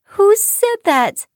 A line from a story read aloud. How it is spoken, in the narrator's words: cried